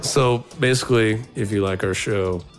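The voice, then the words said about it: Close-up bassy announcer voice. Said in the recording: “I'm getting the close up, bassy announcer voice”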